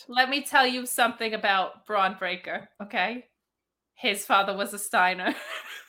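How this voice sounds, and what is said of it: New York Italian mob accent. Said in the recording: “please more New York Italian mob princess accent”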